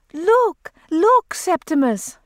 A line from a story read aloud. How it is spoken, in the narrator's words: she cried